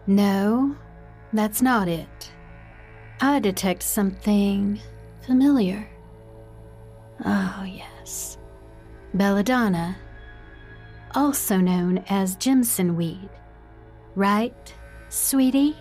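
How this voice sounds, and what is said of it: Ominous voice, slight Southern accent. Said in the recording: “does her voice sound so different? So ominous, and with a hint of a southern accent.”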